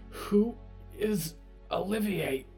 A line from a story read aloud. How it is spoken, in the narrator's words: Clara gasped